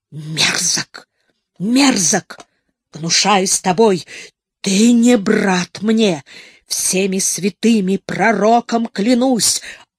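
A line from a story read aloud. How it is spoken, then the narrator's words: Hoarse wheezing. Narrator (Russian): Абдул-Азиз захрипел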